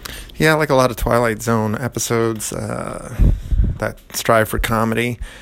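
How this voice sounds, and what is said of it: Usual voice. Nothing is said of it.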